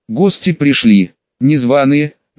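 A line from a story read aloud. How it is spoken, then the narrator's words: Grim reply. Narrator (Russian): мрачно ответил маг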